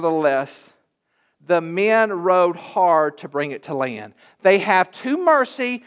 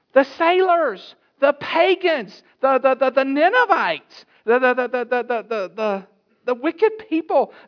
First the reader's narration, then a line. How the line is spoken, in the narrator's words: they cried unto the Lord and said